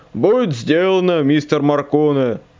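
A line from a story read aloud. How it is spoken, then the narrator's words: Deep bass reply. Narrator (Russian): Басом отозвался Хендрикс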